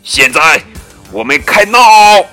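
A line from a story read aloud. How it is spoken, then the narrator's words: Loud. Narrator (Chinese): 麦克斯大声说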